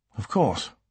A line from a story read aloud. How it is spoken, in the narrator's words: Alex said softly